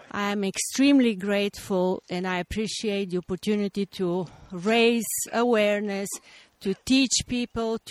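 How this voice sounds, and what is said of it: Noticeable foreign accent. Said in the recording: “talking about diversity, my accent speaks for itself”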